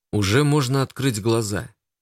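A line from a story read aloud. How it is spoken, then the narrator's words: Gentle. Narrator (Russian): Костя ласково произнес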